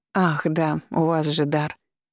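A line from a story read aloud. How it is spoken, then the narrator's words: Embarrassed mumble. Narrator (Russian): пробормотала я, чувствуя себя совсем глупо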